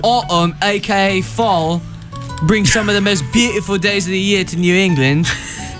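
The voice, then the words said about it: Put-on British accent. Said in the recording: “I'm going to use my British accent ... This is the worst one.”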